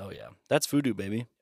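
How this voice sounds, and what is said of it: Put-on deep voice. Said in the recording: “Deep voice.”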